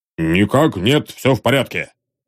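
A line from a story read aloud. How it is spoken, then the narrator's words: Grumble. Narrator (Russian): пробурчал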